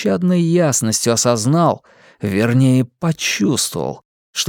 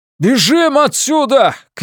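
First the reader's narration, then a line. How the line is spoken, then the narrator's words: Shouting over deafening din. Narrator (Russian): крикнул он, перекрывая весь этот оглушительный и невыносимый грохот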